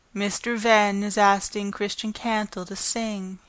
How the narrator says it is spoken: he replied

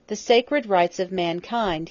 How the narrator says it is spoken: he exclaimed

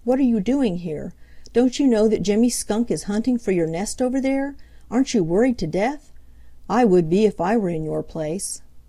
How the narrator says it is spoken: cried Peter

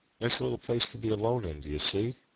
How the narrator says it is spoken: said Folliot

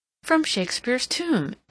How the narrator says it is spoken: exclaimed Mrs

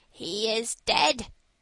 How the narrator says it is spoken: said the magpie, with a croak

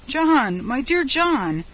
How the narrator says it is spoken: said the surgeon with convulsive sobs

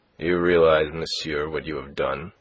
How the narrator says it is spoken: said he coldly to Philippe

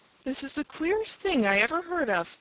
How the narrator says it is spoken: Johnny exclaimed

